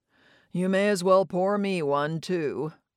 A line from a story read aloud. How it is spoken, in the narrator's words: Don said, sighing resignedly